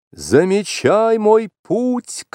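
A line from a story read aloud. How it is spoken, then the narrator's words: Shouted. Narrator (Russian): крикнул Маугли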